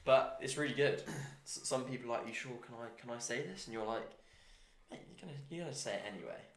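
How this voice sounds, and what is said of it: Posh English accent. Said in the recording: “being one of the few Englishmen out here ... Do I sound really posh? ... Yeah, proper.”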